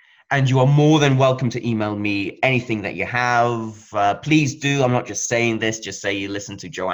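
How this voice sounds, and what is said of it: Usual voice. Nothing is said of it.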